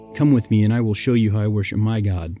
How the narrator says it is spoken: replied George

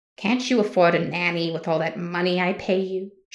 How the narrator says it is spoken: Judith scoffed

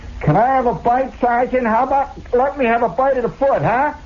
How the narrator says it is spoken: in the crowd somebody hollers

